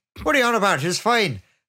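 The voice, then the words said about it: Poor put-on Irish accent. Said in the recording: “my terrible Irish accent”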